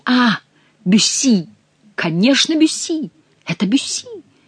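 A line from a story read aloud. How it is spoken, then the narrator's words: Exclaimed again. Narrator (Russian): снова воскликнул герцог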